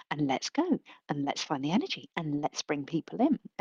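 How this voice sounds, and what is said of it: High-energy presenter voice. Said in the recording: “doing a presentation voice ... here is my performing voice ... go higher on energy than you feel entirely comfortable with”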